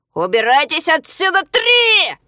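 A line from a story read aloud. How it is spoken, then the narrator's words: Shouting. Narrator (Russian): закричал между тем Ригль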